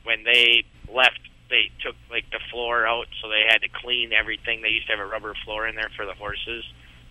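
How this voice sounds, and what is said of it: Minnesota accent. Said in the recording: “With the Minnesota accent, it even sounds classier.”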